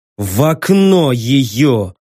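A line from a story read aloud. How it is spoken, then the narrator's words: Hissed through teeth. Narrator (Russian): сквозь зубы процедил я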